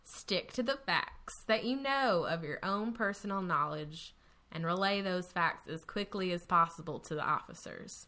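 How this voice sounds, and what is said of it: Natural, strong regional accent. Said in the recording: “That was such an amazing accent. It wasn't over the top. It felt natural. ... I have to actively not sound like that.”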